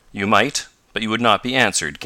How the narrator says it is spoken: came sharply

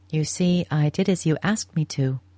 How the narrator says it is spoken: she said

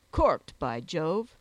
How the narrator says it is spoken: exclaimed Jack

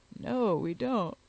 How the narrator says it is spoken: replied he, with a yawn

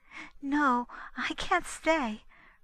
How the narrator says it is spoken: returned her visitor nervously

